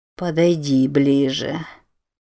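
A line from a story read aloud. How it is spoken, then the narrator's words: Purring. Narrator (Russian): промурлыкало оно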